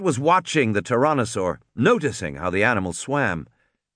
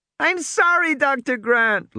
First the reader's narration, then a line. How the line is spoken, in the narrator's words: Lex wailed